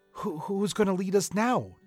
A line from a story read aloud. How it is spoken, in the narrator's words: Terrence asked nervously